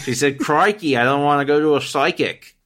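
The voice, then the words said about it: Poor put-on Australian accent. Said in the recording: “I'm very bad at trying my Australian accent out.”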